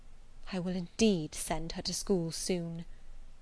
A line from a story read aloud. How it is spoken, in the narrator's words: murmured Mrs